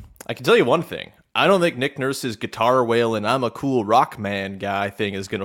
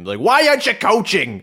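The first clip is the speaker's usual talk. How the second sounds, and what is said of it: Generic Northeast aggro sports fan voice. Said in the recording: “That wasn't a Philly accent at all. but it's just a generic Northeast aggro sports fan voice”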